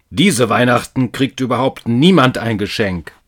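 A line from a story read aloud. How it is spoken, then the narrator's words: Angry man growling. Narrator (German): knurrte der Mann böse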